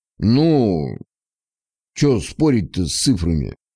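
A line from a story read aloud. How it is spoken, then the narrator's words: Man's drawl. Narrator (Russian): протянул мужчина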